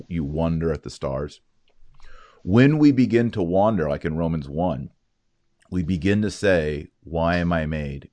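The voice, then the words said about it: Texas accent. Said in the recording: “Pardon my Texas accent”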